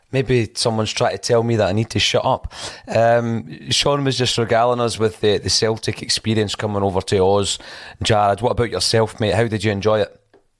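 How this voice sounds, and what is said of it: Voice cutting out, losing voice. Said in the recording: “my voice is intermittent. ... I'm losing my voice.”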